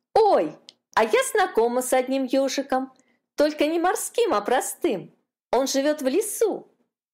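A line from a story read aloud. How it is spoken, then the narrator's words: Excited exclamation. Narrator (Russian): воскликнула Катюшка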